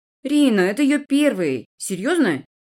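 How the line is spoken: Almost respectful snort. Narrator (Russian): Макс хмыкнул почти уважительно

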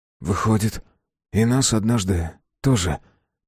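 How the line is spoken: Sudden whisper. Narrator (Russian): прошептал вдруг Иоанн

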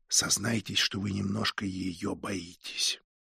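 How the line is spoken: Whispered. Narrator (Russian): промолвил шепотом

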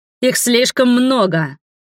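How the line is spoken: Shout. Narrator (Russian): крикнул Дастин, отражая атаки насевших на него воинов

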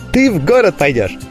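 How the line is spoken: Joyful little girl announcing. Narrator (Russian): радостно объявила девчушка

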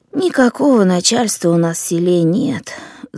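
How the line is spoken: Sighing younger woman. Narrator (Russian): вздохнула женщина помоложе

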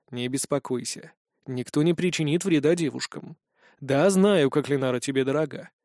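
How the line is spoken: Affectionate tone. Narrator (Russian): произнес ласковым тоном

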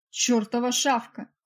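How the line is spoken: Barking. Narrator (Russian): рявкнул он

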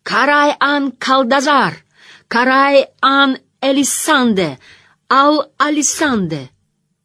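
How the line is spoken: Shouting. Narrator (Russian): Мэтт кричал

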